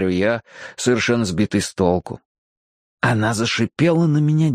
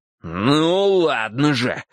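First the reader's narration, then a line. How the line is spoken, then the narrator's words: Impatient growl. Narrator (Russian): зарычал я, теряя терпение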